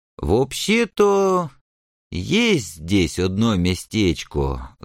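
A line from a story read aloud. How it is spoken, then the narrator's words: Thoughtful drawl. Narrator (Russian): задумчиво протянул Злобыня Никитич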